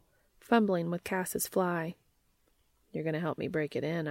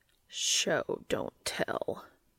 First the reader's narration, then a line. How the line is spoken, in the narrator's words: Cas growled